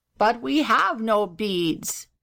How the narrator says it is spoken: said the gobbler sadly

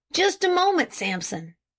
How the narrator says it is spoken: suddenly exclaimed Farnsworth

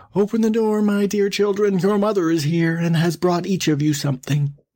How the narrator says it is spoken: cried

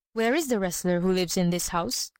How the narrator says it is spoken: he asked

